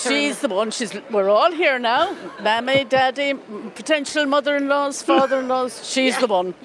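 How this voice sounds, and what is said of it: Irish accent from County Mayo. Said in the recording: “your accent is not Donegal ... Mayo. I'm from Mayo.”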